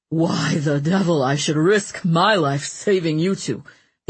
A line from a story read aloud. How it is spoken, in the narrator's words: the espion muttered darkly